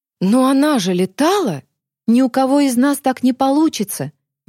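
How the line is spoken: Exclamation. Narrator (Russian): воскликнула Алиса

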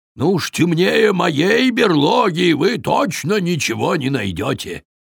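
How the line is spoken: Grumbling bear. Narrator (Russian): проворчал медведь

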